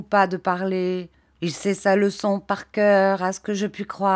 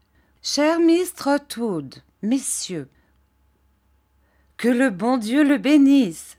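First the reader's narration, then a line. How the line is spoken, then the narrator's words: Aunt exclaiming. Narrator (French): s'écria ma tante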